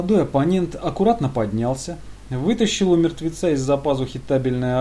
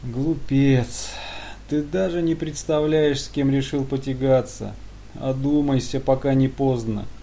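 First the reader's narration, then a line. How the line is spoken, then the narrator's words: Curt smirk, then sad. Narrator (Russian): обрезал собеседника генерал и усмехнулся, потом печально добавил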